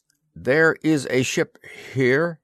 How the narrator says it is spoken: he said uneasily

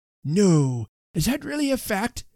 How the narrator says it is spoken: exclaimed Mr

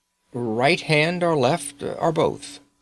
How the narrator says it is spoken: asked Eustace

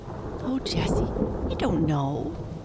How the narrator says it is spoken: murmured Amy

